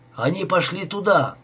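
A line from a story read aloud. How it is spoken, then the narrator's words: Unseen man shouting across river. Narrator (Russian): кричал невидимый человек через реку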